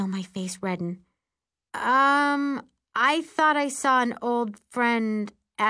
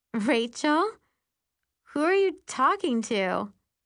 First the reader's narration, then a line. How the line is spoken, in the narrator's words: Allison asks